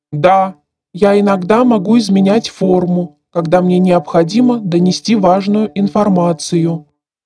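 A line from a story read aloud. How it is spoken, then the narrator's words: Metallic voice. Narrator (Russian): сказал металлическим голосом Магнитус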